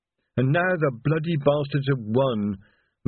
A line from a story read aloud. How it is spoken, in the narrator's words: moaned Reg